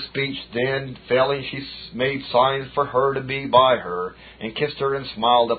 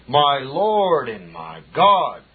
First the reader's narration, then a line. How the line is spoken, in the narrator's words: fetched a double sigh, and died